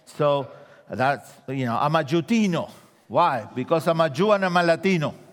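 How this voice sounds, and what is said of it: Argentine-accented English. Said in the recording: “I'm a Jew from Argentina. That's why I have an accent.”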